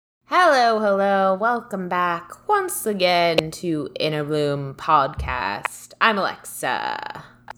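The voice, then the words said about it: Inconsistent put-on British accent. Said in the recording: “We're doing accents today. Terrible accents... I think our British accents are somewhat decent... It goes in and out”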